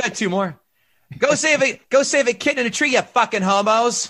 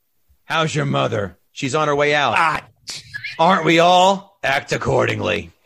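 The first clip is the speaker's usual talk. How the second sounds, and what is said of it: Put-on Boston accent. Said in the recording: “every Boston accent I'm going to do is going to sound exactly like Bill Burr”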